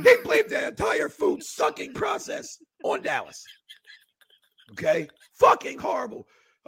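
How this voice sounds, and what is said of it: Hoarse, strained, losing voice. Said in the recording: “I'm losing my voice ... talk and shout even more ... Lost your voice too”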